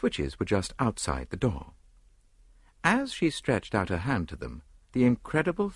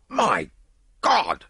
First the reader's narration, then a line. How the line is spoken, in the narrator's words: cried Lord Yardley